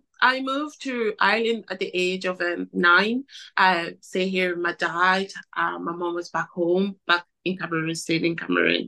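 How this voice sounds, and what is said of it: Cameroonian accent. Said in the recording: “they can hear it in your voice that you got an accent, so I believe you come from Cameroon originally”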